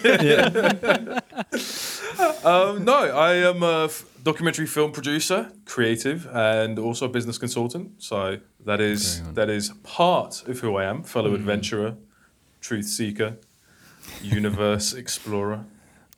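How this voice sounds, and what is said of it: British accent. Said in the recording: “fake British accent”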